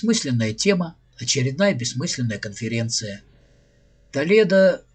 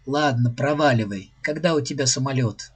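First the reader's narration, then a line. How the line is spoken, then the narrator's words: Laughing. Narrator (Russian): Она рассмеялась и сказала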